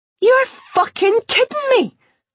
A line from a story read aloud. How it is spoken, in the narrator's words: Jenny yelled as she jumped up and down on the spot